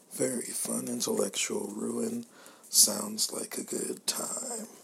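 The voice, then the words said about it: Whispering. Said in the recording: “my whispers will turn into good audio, so uh, that is why I'm whispering.”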